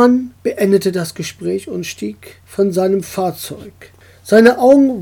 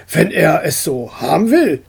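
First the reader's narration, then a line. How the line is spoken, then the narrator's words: Grumbling. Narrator (German): brummte er schließlich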